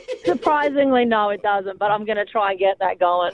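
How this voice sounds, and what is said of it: Australian accent. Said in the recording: “I'm sensing an accent on ... too. ... Definitely an Aussie. ... it sounded Australian to me”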